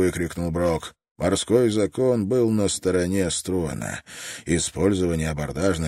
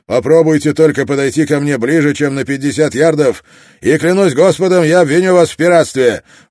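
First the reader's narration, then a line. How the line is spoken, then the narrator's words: Shouting across water. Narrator (Russian): Когда между ними легла полоса воды в 30 ярдов, Строн прокричал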